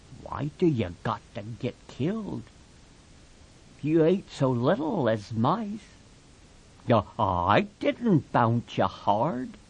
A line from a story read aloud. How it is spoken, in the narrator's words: Lenny said softly to the puppy